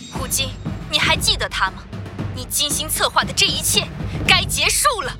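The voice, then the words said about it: Stern, judgmental pronouncing tone. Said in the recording (Chinese): “用审判一般的声音说道”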